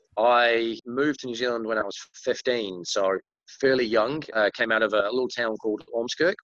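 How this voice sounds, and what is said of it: Muddled British accent. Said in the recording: “I grew up in the UK, so you'll kind of tell by my accent, it's a little bit muddled.”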